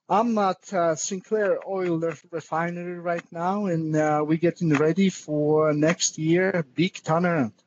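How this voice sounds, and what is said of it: Polish accent. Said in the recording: “that awesome accent ... I'm Polish-born”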